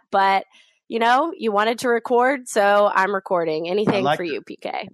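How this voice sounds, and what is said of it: Slightly off, congested voice from a cold. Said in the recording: “I do have a little bit of a cold right now ... my voice is a little off and I sound weird. I am coughing a little bit and choking up”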